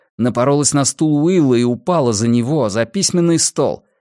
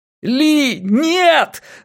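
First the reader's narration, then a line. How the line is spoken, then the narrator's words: Yelled. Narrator (Russian): заорал я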